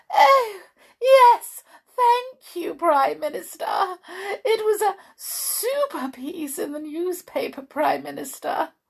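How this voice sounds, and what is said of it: Ridiculously posh telephone voice. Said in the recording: “in a truly ridiculous voice. A good note posher than even her usual telephone voice.”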